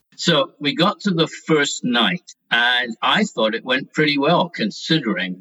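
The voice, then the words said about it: Scottish accent. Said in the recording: “as you can probably tell by his accent, had come to London from Scotland”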